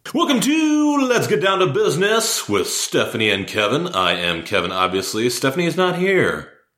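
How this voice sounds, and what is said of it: Smooth radio announcer voice. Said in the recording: “You have a good radio voice.”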